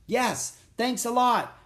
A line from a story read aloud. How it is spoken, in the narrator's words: shouted Jack